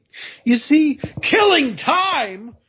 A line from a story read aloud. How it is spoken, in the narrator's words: roared the dog so furiously